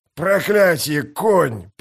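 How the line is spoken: Hoarse wheeze. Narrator (Russian): прохрипел он

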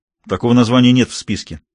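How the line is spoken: Very decisive tone. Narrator (Russian): самым решительным тоном ответил моряк

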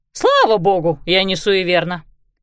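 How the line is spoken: Snorting. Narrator (Russian): фыркнула мисс Пик

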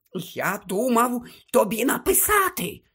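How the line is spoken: Whisper. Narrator (Ukrainian): шепотів

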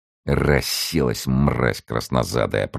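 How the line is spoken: Muttering. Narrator (Russian): пробормотал один из военных моряков

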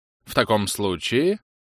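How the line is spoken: Indignant tone. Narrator (Russian): сказала леди Хаммергаллоу, откидывая назад голову и говоря определенно возмущенным тоном

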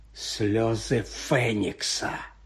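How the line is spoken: Quiet. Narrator (Ukrainian): тихо вимовив Редл

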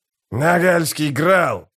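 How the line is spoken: Growled, violinist. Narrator (Russian): прорычал скрипач

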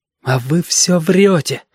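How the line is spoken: Breathless, near tears. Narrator (Russian): выдохнул ежики, потому что очень хотелось заплакать

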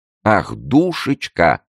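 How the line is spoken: Laughing. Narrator (Russian): сказал Филипп, рассмеявшись в свою очередь

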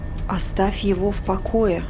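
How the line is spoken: Muttering to herself. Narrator (Russian): пробормотала она себе

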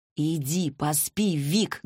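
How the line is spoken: Loud bark. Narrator (Russian): гаркнула я

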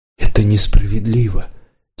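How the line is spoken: Quiet. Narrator (Russian): тихо сказал Варан

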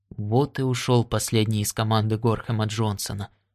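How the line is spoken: Muttering. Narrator (Russian): пробормотал Уайти

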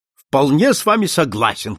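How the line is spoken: Shout. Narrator (Russian): крикнул Сомерли

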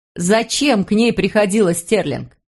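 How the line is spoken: Shouting. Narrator (Russian): прокричала она

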